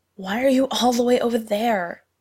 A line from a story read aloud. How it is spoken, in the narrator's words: Lindsay gasped